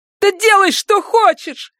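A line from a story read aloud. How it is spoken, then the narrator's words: Shouted. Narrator (Russian): закричала она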